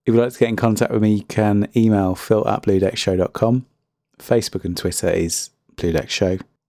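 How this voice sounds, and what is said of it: Strained, fading voice. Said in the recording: “My voice is going, I've been talking so much”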